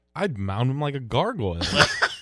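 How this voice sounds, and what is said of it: Imitates another person's voice. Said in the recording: “do your best ... impersonation”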